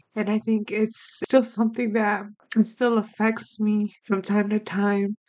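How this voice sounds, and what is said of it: Choked up, emotional voice. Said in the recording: “I'm getting choked up just speaking about it ... hear the sincerity in my voice”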